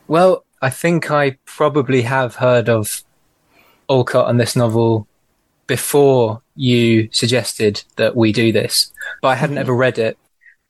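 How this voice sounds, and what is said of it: Liverpool English accent. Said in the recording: “If you couldn't tell by the accent, ... is coming to us from Liverpool.”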